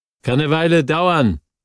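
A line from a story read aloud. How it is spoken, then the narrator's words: Calling through wood, muffled. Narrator (German): rief ich durch das Holz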